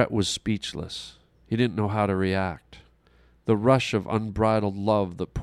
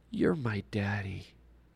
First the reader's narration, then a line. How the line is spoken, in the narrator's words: in a sleepy little child's voice half whispered